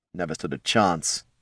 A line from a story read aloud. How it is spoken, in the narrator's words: he muttered to Tyron